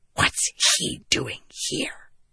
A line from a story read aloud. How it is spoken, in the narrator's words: Shallan hissed